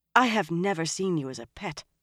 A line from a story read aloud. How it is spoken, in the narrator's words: Moiraine said sharply